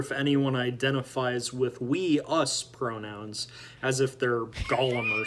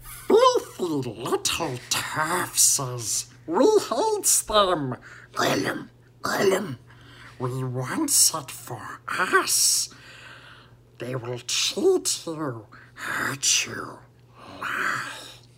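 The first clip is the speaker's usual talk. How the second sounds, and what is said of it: Gollum impression. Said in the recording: “Okay, that was a bit too good. ... Not a bad impression.”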